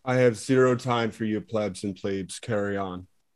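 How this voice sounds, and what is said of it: Tony Hinchcliffe impression. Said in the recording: “doing his best Tony Hinchcliffe impression right now”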